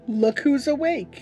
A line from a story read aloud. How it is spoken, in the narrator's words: I cried, but it was different than before